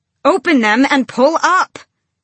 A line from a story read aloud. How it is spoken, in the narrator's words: she bellowed